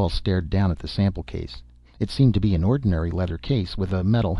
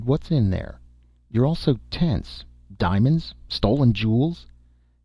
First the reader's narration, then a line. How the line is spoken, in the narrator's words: Jan laughed harshly, mirthlessly